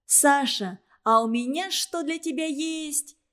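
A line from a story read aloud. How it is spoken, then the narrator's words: Cheerful shout. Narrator (Russian): весело закричала она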